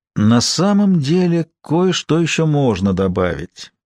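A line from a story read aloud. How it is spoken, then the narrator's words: Unexpectedly thoughtful. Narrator (Russian): сказал банкир неожиданно задумчивым голосом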